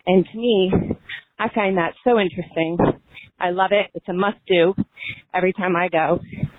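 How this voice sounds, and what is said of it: Out of breath, breathless speech. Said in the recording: “excuse me, I'm out of breath”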